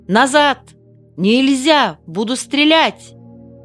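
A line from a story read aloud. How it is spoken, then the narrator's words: Shouted by young lieutenant. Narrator (Russian): Молоденький лейтенант крикнул Михайловне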